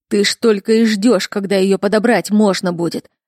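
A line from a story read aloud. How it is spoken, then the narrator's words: Growling. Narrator (Russian): рычал Константин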